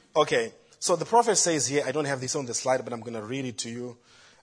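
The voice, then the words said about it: Speaks with a noticeable accent. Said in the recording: “Forgive my accent”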